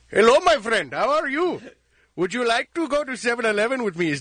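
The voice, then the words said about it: Put-on Indian accent. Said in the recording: “Oh, an East Indian accent... man of a thousand accents... what he said was perfect”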